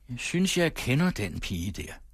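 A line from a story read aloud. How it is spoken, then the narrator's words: Calm, half-aloud. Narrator (Danish): Javert fuldstændig roligt sagde halvhøjt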